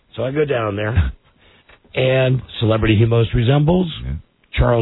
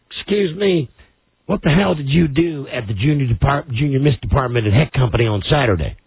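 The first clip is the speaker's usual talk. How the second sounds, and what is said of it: Imitated southern accent. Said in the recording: “He's got a southern accent.”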